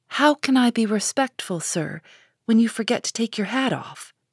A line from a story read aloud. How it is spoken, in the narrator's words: said Joe